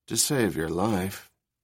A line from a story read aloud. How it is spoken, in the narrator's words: Rachel murmured